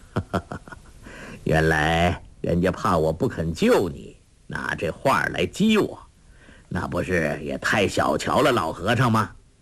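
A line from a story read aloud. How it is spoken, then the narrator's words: Laughing. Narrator (Chinese): 笑道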